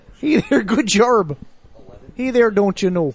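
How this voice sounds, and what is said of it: Put-on Minnesota Fargo accent. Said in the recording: “I like the main accent there... It's actually a Fargo accent. Minnesota.”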